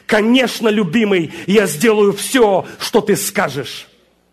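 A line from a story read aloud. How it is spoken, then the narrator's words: Shout. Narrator (Russian): Я прокричал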